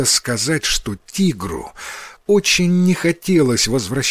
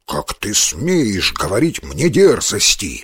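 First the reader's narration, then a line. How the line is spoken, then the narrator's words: Tiger growling. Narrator (Russian): зарычал тигр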